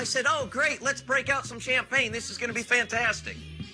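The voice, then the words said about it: Yelling, sarcastic tone. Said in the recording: “you're yelling”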